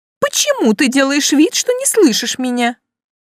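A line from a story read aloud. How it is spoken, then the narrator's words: Indignant question. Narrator (Russian): возмущенно спросила мисс Оливия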